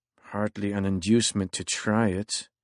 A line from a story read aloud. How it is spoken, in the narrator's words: Steyn muttered to himself